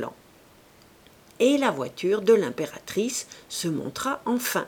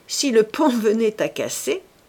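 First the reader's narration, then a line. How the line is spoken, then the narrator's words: Sneering laugh. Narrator (French): dit en ricanant Gilles Quint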